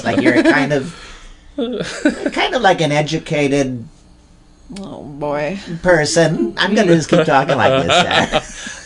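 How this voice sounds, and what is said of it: Nervous 1950s voice with cracks. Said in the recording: “50s Nervous Voice ... Shelley Berman, he did the same thing ... talk like this with a little crack in your voice”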